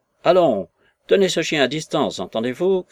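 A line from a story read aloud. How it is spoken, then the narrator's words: Shout. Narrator (French): cria-t-il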